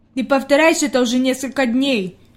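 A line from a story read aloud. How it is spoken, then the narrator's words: Displeased grumble. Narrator (Russian): недовольно пробурчал Питер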